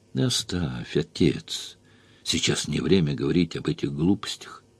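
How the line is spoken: Tired. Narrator (Russian): заметил я устало

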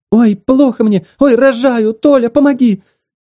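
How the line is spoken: Scream at full force. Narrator (Russian): вдруг закричала, что есть мочи

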